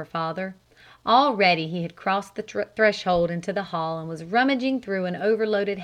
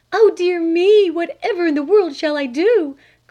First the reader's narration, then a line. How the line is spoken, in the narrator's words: cried Flame's mother